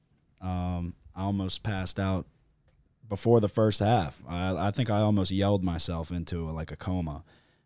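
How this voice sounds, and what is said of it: Strained, worn-out voice. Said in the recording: “My voice is struggling. ... So if my voice sounds a little off”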